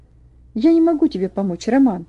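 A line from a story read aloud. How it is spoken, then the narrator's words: Agitated reply. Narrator (Russian): ответил Ваня взволнованно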